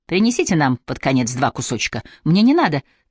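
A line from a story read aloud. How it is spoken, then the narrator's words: Hurried speech. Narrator (Russian): торопливо сказала Дана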